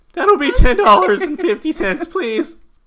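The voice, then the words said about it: Cracking teenage boy character voice. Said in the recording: “I'm like a teenage boy. I'm like that kid from The Simpsons, you know, they always have like the teenage, like, working like at the fast food place.”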